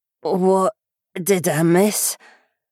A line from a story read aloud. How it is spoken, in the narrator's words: Jen croaked